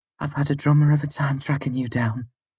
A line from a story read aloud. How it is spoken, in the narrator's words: she said